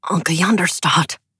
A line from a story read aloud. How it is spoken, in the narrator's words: Joran said urgently